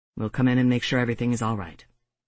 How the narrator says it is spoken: James said in a level voice that didn't allow for any argument

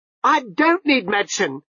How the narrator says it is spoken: Jeremy shouted

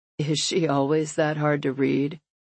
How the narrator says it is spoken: Brody sighs

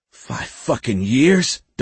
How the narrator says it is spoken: Donnie spluttered

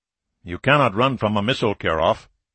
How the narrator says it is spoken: the general said quietly

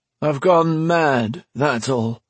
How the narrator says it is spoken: he said in a dull, lifeless voice

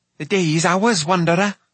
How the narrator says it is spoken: One of the comet men cried

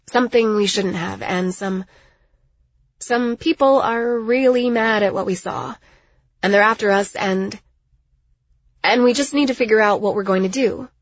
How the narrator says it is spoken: I sighed

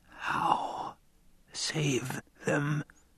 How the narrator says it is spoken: Leto whispered

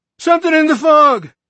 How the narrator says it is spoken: he screamed

